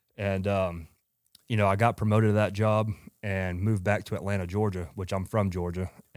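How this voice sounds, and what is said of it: Strong Georgia Southern US accent. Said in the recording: “if you can tell by his accent... A lot of people say I have a massive accent”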